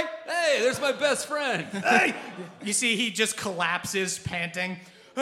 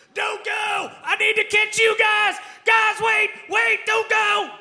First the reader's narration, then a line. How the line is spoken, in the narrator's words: Ol' Cobb bolting out of the woods, running towards you guys, screaming